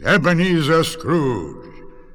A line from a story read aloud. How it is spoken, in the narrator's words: a booming voice says